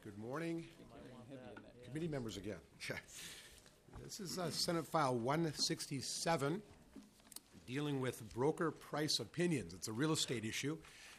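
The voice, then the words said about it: Hoarse, strained voice. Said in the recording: “My voice is a little bit gone”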